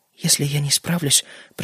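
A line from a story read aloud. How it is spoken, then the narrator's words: Mumbling. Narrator (Russian): пробормотала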